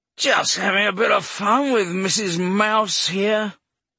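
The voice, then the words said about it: Slurred southern drunk voice. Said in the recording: “He had a southern accent and was slurring.”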